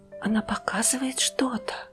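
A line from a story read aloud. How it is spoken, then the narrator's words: Whispered, young woman. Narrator (Russian): прошептала девушка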